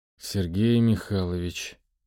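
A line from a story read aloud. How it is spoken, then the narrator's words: Mumbled. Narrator (Russian): пробормотал Сергей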